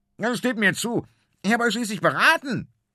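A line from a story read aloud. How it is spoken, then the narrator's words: Shouting even louder. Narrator (German): schreit Finn noch lauter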